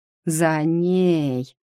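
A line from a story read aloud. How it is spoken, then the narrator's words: Understanding, drawn out. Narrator (Russian): понятливо протянула Шелли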